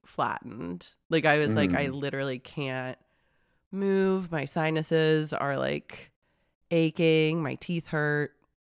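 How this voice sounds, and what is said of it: Scratchy, congested sick voice. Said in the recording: “I sound worse than I feel. ... it's a very unique voice today ... it's like very radio voice ... It's a little so Lindsay, like, scratchy ... A little post-nasal drip ... I like being a little bit scratchy”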